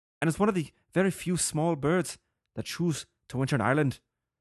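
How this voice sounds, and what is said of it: Put-on Irish accent. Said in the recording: “I'm going to try my best Irish accent”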